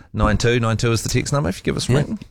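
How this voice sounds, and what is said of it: Slight northern English accent. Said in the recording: “You went a little bit northern there with that accent.”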